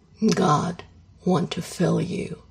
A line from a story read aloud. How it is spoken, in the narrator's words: he growls